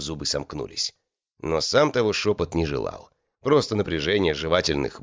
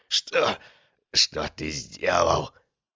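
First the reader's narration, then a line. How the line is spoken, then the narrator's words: Strained whisper. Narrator (Russian): с трудом выдавил из себя шепот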